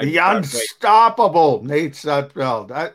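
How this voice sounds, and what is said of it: Impression of Jeff Lurie. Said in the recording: “That was an outstanding impersonation by you, Jeff Lurie.”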